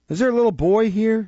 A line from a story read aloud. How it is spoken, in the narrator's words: inquired Nancy, with a preliminary sob